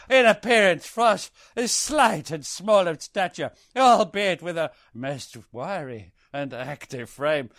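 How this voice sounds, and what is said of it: Put-on accent reading a quote. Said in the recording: “I'm reaching into my bag of accents. And guess which one I'm going to come up with.”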